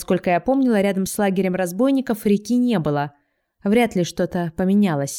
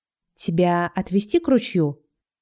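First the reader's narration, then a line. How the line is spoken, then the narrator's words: Quiet question. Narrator (Russian): Так же тихо спрашивает Джон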